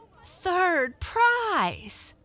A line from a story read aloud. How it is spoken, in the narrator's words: They squeal